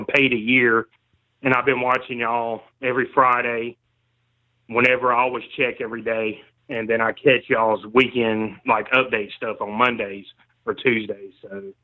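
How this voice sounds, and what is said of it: Southern American accent. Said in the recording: “I love the Southern accent, too, by the way. ... I was like hearing a Southern accent. Seems like it's kind of fading out, unfortunately.”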